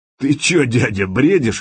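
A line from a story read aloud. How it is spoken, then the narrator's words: Short guffaw. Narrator (Russian): хохотнул Володя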